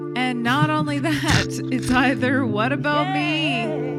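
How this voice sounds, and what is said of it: Imitates another person's voice. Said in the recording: “Oh, that's a good impression.”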